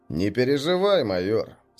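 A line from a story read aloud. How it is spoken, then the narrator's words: Calm. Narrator (Russian): спокойно произнес Костя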